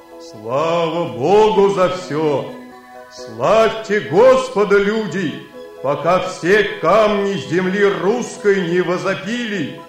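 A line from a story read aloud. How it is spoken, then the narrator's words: Exclaiming in human voice. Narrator (Russian): воскликнул он человеческим голосом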